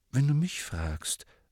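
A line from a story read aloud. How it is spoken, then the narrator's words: Quiet. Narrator (German): sagte Harry leise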